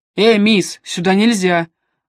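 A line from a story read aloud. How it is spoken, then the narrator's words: Barked command. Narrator (Russian): рявкнул констебль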